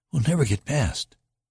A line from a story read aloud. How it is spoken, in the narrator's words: Anita gasped